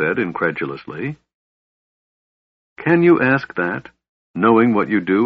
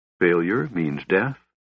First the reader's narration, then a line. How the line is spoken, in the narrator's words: Tanis said softly